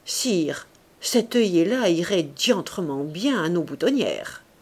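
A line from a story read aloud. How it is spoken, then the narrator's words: Harsher, blunter voice. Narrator (French): le général répondit d'une voix plus brutale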